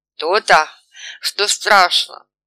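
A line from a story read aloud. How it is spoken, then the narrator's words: Sad wry chuckle. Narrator (Russian): грустно усмехнулся Савка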